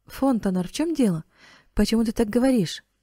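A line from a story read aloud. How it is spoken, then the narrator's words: Somewhat frightened exclamation. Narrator (Russian): воскликнула Клементина с некоторым испугом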